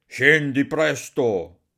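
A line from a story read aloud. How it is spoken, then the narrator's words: Shouting. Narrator (Italian): gridava Barbablù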